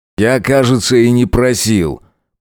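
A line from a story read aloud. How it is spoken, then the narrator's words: Through tightly clenched teeth. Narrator (Russian): процедил сквозь сжатые насмерть зубы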